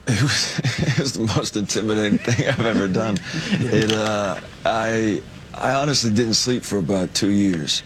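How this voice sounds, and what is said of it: Sounds like a foreign accent or stoner. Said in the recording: “doesn't that sound like a foreign accent? ... or a stoner”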